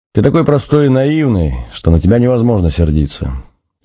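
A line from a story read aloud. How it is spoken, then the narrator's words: After laughter. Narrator (Russian): Отсмеявшись, Надя сказала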